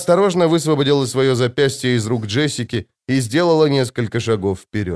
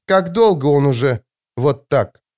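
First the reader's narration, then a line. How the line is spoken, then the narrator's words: Strained, forced words. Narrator (Russian): выдавила Чани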